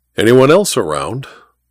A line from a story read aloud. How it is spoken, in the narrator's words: Ivy sighed